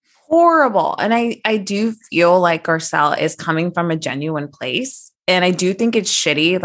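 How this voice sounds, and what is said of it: Usual voice. Nothing is said of it.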